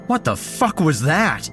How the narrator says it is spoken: I shouted

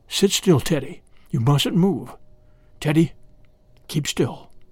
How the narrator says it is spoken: all his father could do was whisper

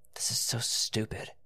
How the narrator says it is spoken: mumbled

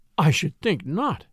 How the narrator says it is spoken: breathed Mrs

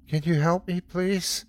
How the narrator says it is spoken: The little voice sounded choked up, like it was trying very hard not to cry

